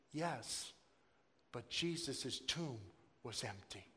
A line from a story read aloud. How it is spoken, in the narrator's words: said softly